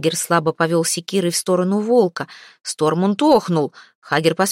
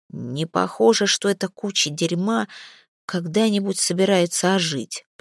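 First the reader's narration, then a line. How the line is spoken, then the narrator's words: Muttering. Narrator (Russian): пробормотал он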